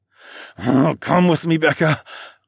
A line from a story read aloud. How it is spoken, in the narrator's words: I growled